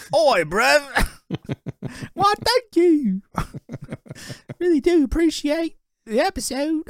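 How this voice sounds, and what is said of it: Put-on Cockney accent. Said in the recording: “I do my Cockney accent.”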